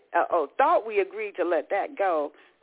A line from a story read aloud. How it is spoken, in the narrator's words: Raymond said